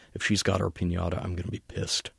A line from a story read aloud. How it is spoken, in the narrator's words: muttered